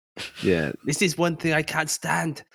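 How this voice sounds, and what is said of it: Unidentifiable put-on accent. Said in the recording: “I don't know what that accent is.”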